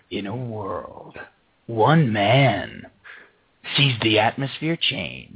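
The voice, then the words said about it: Dramatic movie-trailer voiceover voice. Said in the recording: “My voice is actually good for that guy. ... You could do voiceover work.”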